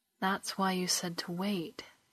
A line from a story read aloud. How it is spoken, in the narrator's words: Kalani sighed